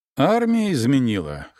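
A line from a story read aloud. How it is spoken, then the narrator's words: Snorting grunt. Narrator (Russian): хмыкнул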